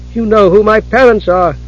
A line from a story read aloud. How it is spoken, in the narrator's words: she cried